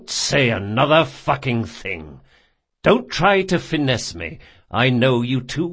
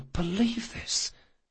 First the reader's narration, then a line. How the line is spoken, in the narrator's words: he whispered